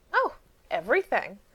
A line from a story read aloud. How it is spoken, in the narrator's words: Ivan said cheerfully